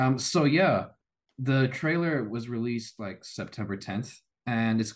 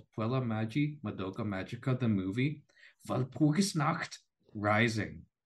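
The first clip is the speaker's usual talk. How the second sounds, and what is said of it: Slight put-on German accent. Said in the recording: “I put a bit of a German accent there just for you”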